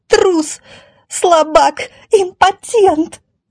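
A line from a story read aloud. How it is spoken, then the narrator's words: Woman shrieking. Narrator (Russian): завизжала она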